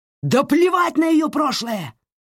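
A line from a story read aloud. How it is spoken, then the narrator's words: Yelling. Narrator (Russian): заорал Саймон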